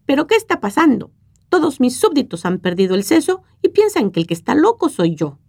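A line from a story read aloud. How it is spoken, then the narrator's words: King's outraged outcry. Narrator (Spanish): el monarca puso el grito en el cielo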